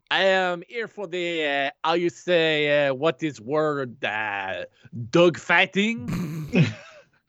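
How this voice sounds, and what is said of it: Put-on French accent. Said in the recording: “Where's your French accent?”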